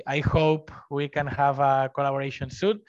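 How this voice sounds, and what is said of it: Spanish accent. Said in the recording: “I love your Spanish accent.”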